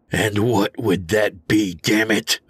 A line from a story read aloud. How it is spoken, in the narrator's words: I growled